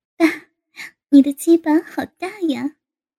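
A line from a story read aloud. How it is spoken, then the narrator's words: Laughing. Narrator (Chinese): 高芳……笑道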